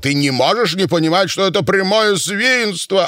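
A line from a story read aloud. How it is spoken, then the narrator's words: Shouting. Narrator (Russian): он кричал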